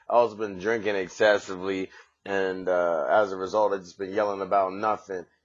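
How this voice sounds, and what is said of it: Hoarse voice. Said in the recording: “I sound a little hoarse, it's because I've been talking in an old man voice.”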